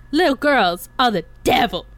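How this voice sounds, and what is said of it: Imitates another person's voice. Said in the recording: “That was actually a really good impression”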